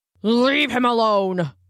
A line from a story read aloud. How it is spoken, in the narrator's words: boomed a voice